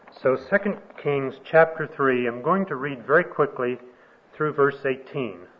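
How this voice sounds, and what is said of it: Texas accent. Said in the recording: “my Texas accent ... with my Texas accent, I evidently did not succeed in communicating that”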